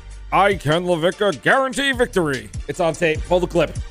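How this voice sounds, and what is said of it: Imitates another person's voice. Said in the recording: “Was that your impression of me? ... That was a terrible impression.”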